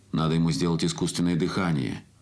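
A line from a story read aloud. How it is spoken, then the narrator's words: Booming familiar voice. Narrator (Russian): прогремел чей-то знакомый голос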